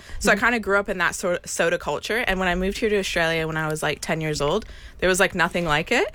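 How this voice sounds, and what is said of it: Canadian accent. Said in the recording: “As you can hear from my accent, I'm originally from Canada.”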